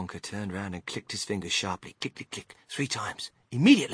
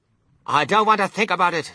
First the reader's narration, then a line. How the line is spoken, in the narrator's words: shrieked Mrs